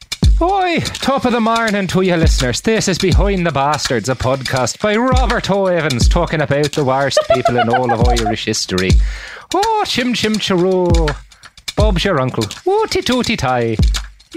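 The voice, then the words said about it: Exaggerated fake Irish accent. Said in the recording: “That was my very racist Irish accent.”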